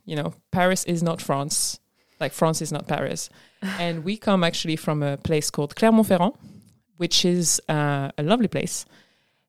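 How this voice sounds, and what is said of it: French accent. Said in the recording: “As you probably guessed from our accents, we are French”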